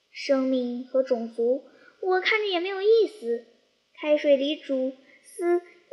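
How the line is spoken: Sighing. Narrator (Chinese): 蝉 叹息地说

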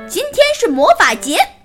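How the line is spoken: Shouting. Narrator (Chinese): 阿莫大喊

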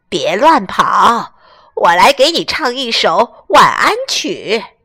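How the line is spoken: Hoarse voice. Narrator (Chinese): 她用沙哑的嗓音说

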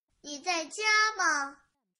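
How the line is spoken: Shout from outside. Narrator (Chinese): 有人在门外喊

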